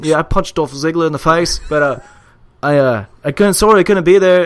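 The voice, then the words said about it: Hugh Jackman impression, Australian accent. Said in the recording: “Hugh Jackman just put out like a video and he's like... there's an Australian accent here.”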